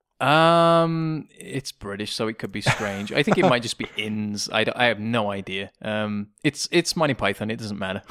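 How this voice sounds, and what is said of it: British accent. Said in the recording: “that strange accent ... I'm not sick. I'm just British.”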